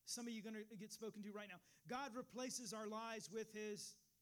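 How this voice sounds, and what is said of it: Raised, passionate preaching voice. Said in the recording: “I'm raising my voice a little bit. But I'm passionate about it.”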